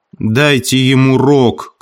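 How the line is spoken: Shouted. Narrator (Russian): крикнул Хрюша

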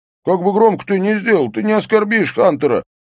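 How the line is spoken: Shout. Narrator (Russian): прокричал Эйстейн

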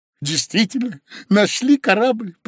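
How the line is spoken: Joyful confirmation. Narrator (Russian): подтвердил Карась радостно

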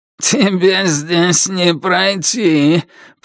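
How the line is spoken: Creaky voice. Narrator (Russian): проскрипел Дивоур

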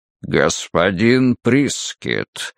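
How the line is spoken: Deep guttural voice. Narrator (Russian): утробным голосом произнес Малдун

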